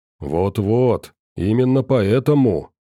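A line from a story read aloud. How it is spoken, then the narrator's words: Sepulchral, grave voice. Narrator (Russian): за могильным голосом вещал Кух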